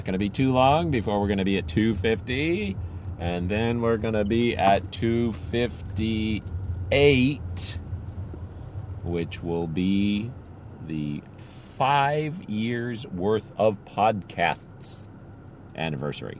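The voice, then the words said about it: Tired, slightly sore voice. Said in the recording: “My voice is a little sore today, a little tired, I should say. It's not really sore, it's just tired. A little tired today. ... I've been talking a lot the last couple of days”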